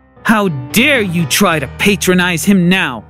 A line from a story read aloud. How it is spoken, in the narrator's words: She growled